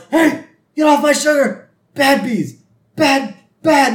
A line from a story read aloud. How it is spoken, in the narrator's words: Homer yells